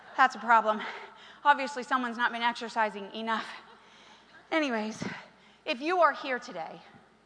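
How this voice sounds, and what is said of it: Breathless, out-of-breath speech. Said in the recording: “I'm still out of breath.”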